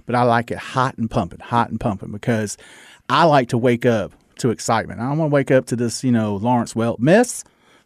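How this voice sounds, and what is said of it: Southern American accent. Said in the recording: “with my Southern accent, you know, half the people can't understand me anyway”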